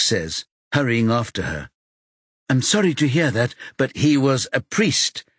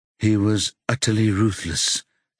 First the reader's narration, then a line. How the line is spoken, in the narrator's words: she says in a toneless voice